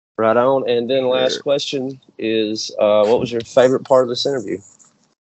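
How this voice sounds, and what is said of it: Southern US accent. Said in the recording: “you have a nice Southern accent. It's different than mine.”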